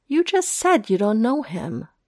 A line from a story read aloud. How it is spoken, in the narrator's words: Foggy exclaims, maddened